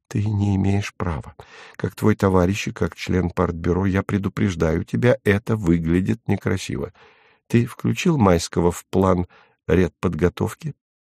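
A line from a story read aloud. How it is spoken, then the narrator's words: Low voice. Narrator (Russian): проговорила вполголоса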